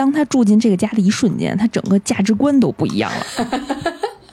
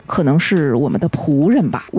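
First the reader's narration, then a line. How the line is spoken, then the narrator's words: Calm, indifferent. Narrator (Chinese): 淡淡的说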